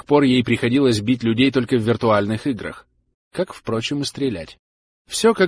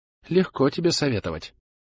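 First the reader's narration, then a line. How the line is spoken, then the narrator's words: Mutter. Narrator (Russian): пробормотала Зара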